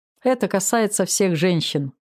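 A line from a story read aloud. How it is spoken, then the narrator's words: Father laughing. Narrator (Russian): рассмеялся папа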